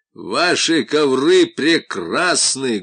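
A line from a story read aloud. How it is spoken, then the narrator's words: Loud. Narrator (Russian): громко сказал он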